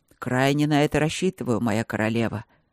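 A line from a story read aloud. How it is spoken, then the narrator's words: Growl. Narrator (Russian): рыкнул Берман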